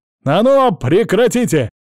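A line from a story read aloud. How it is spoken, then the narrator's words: Barking shout. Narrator (Russian): гаркнул я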